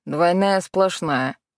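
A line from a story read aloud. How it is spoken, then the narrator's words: Muttering driver. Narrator (Russian): буркнул водитель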